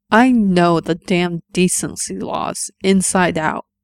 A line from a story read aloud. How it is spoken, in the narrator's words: Errol growled